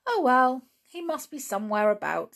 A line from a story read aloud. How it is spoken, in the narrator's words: said Julian cheerfully